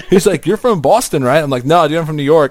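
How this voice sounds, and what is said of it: New York accent. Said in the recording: “I apparently have a New York accent”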